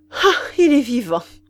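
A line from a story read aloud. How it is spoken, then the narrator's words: Duke exclaiming, relieved sigh. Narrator (French): s'écria le duc avec un soupir de soulagement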